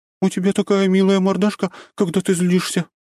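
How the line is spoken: Cooing. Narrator (Russian): проворковала она

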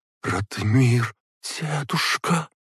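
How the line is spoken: Whispered. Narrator (Russian): прошептала она

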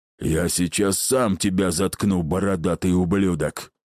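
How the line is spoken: Rude, harsh. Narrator (Russian): Неожиданно грубо отреагировал Игв

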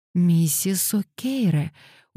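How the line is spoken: Sympathetic exclamation. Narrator (Russian): участливо воскликнула Пандора

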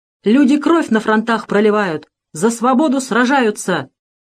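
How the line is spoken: Loud, clearly enunciated. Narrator (Russian): Громко, отчетливо выговаривая каждое слово, сказал этот человек

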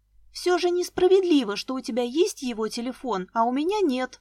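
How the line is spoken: Shouting after someone. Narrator (Russian): крикнула мне вслед Вика

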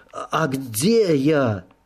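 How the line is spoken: Hoarse prisoner. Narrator (Russian): просипел пленник

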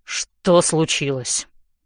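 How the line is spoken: Irritated. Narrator (Russian): говорит он раздраженно

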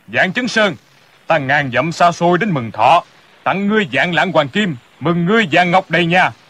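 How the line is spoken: Big man's hearty laugh. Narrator (Vietnamese): người kia mặt xồm xoàm đầy râu, thân hình cao lớn, quai phong lẫm lẫm, ha ha cười lớn

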